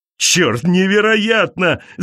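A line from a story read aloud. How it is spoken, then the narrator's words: Shouting. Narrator (Russian): закричал он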